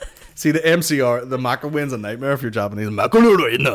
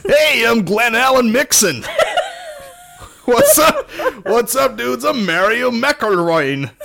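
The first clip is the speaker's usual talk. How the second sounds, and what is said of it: Put-on American accent. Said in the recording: “You need an American accent.”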